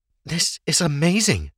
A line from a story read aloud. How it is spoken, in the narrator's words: Ava gasped